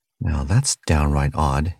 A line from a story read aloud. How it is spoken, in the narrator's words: he muttered